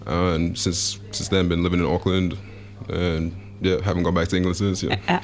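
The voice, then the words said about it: Speaks with a noticeable accent. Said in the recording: “the listeners will be picking up. You have an accent.”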